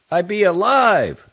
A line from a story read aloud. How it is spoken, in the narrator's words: this zombie shouts